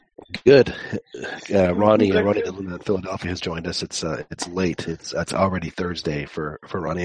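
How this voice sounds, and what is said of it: Deep, rough, sick-sounding voice. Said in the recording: “are you sick? ... I am sick. Can you tell I have my radio voice going? ... I sound like I've been smoking, you know, 4 packs a day”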